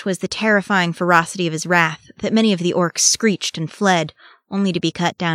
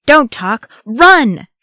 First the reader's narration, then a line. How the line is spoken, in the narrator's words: shouted Aragorn